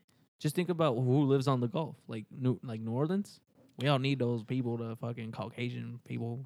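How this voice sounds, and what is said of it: Usual voice. Nothing is said of it.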